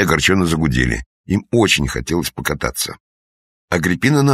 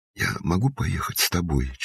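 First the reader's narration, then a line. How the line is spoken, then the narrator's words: Barely audible question. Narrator (Russian): чуть слышно спросила она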